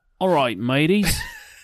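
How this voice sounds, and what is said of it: Put-on Australian accent. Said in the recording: “Do I sound like Fuse? ... The Australian? ... Yeah, that was good.”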